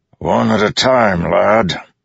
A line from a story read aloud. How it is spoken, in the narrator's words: One shout from the stands seemed to separate from the others